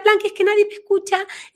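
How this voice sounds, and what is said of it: Small, thin childlike voice. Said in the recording (Spanish): “vino así con una vocecita ... con una vocecita así”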